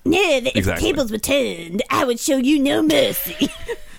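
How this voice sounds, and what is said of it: Cartman-style cartoon voice. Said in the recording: “That was Cartman really doing a Veigar impression.”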